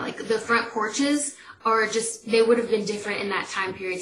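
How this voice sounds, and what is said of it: Southern country accent from Atlanta. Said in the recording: “I live in Atlanta, if y'all can't hear from my accent, like country”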